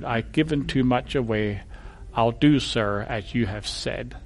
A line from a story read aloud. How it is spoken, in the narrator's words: gracefully lowered her head and whispered